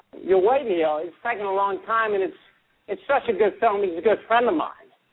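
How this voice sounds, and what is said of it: Christopher Walken impression. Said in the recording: “that sounds like Elizabeth Banks doing a Christopher Walken impression.”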